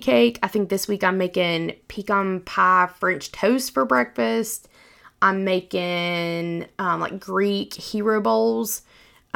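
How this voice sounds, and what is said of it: Appalachian accent. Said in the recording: “my little Appalachian accent”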